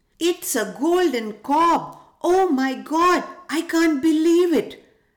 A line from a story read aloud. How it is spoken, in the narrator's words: the farmer woman said excitedly